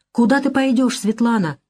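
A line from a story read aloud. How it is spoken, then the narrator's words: Exclaimed. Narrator (Russian): воскликнул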